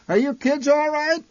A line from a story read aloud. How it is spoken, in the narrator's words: My mother occasionally shouted back through the din